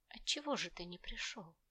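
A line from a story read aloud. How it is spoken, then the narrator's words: Distinct whisper. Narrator (Russian): раздался в комнате явственный шепот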